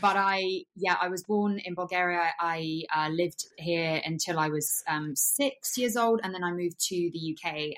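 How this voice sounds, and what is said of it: Thick Bulgarian accent. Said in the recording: “I know I have a really thick accent... you can really tell straight off the bat,”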